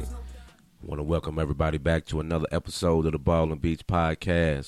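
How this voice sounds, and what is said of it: Raspy hoarse voice. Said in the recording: “raspy little voice ... getting over a slight sinus infection, so I'm a little raspy”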